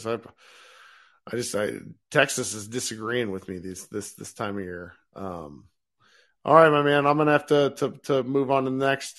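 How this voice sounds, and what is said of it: Rough, unwell-sounding voice. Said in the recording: “I sound terrible again”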